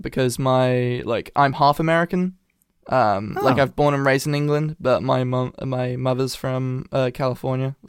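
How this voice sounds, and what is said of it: British accent with American influence. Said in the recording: “I do have, like, an Americanized accent ... I can hear the half... The half nature of it ... I can tell that you have a British accent”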